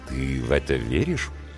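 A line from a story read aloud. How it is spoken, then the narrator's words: Insinuating, ingratiating question. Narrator (Russian): вкрадчиво уточняет Николай Валерьевич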